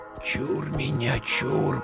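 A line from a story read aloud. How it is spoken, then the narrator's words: Whisper. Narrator (Russian): прошептал Игнат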